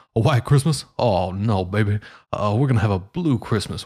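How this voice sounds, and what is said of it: Imitates a famous singer's voice. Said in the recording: “Elvis doesn't talk like that. He says ... my Elvis impersonation. ... I know it's wonderful.”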